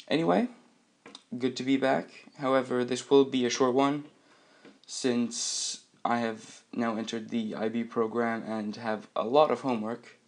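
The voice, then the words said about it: Rough, sick-sounding voice. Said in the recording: “my voice is a little bit rough. That's because I'm sick, got a little bit of a cold”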